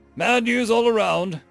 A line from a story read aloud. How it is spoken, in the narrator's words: he grunted